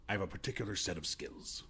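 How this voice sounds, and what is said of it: Intense Liam Neeson impression. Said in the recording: “Liam Neeson's harder too because you have to like really get yourself intense to do it ... get the accent ... You have to be intense.”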